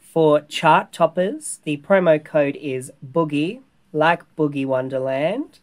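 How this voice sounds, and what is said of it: Formal newsreader-style delivery. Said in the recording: “I love that you sound like a newsreader.”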